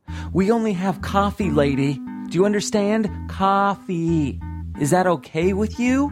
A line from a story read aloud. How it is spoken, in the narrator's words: I hear the waitress yelling